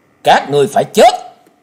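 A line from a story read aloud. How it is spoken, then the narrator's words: Icy shout. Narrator (Vietnamese): Tiếng quát lạnh như băng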